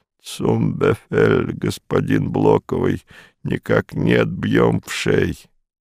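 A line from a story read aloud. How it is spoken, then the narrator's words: Shuddering hoarse wheeze. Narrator (Russian): сильно вздрогнул и прохрипел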